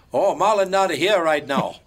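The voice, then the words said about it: Made-up foreign accent. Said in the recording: “this fake accent that he made ... this fake, made-up accent ... what country is that supposed to be? ... Just the Japanese, Peruvian, Spanish kind of accent”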